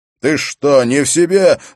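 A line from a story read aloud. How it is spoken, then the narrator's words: Shouting. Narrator (Russian): закричал Хорус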